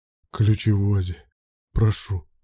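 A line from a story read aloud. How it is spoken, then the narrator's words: Hoarse rasp. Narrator (Russian): прохрипел Руслан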